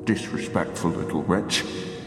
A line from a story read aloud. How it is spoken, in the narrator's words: Old Man Caswell muttered at me